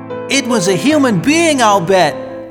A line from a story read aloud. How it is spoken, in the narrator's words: cried Michael